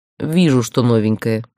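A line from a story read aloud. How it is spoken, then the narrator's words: Snorting. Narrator (Russian): хмыкнул Гроу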